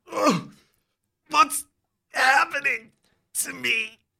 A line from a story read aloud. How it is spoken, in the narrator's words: You moan